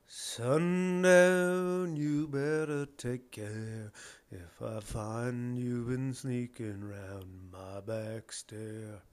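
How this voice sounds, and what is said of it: Sings a song, moderately on key. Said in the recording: “It's not a great impression, but it's not a terrible impression of what the song sounds like. I think that was moderately on key.”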